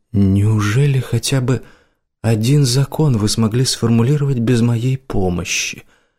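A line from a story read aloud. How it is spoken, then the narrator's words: Sigh. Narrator (Russian): вздохнул профессор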